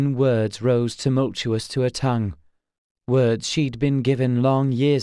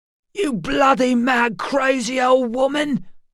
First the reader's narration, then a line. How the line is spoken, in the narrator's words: he shouted